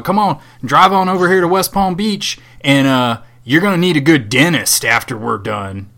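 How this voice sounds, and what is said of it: Put-on southern accent. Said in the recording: “I'm I'm saying it in a southern accent because this is how I imagine his.”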